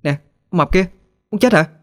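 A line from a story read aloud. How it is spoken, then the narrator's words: Very loud shout. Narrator (Vietnamese): Hết đường khuyên nhủ, Thư liền cố hét thật lớn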